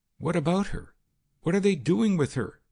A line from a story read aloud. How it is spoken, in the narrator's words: she gasped in terror